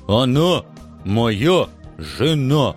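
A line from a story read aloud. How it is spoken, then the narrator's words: Clear, deliberate enunciation. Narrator (Russian): Четко выговаривая каждое слово, доложил мой оруженосец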